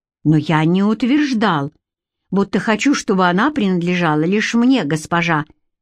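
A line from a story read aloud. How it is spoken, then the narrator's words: Sharp curt retort. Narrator (Russian): резко бросил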